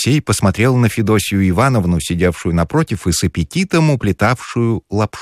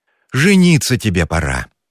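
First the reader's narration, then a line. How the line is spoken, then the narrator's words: Sighing. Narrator (Russian): вздохнула Федосья Ивановна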